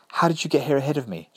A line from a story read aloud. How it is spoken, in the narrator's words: gasped